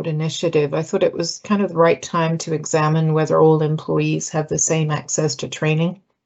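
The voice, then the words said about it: British English accent. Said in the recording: “I'm British. And as someone who's British ... they like my accent”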